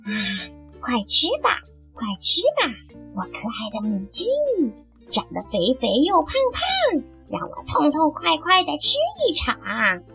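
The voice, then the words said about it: Quiet, muttered voice. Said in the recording (Chinese): “他小声的念叨着”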